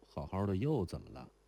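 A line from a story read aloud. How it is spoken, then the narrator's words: Deep sigh. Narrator (Chinese): 如莲 深深叹了一声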